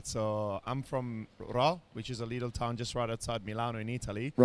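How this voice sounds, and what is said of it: Strong Italian accent in English. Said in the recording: “the man from Italy ... Where does this crazy accent come from?”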